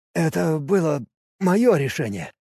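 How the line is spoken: Forced out reluctantly. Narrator (Russian): выдавил он наконец

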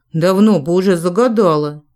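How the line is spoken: Agonized moan. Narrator (Russian): мученически простонал инквизитор

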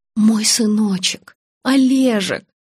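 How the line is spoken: Sobbing. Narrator (Russian): зарыдала Нина

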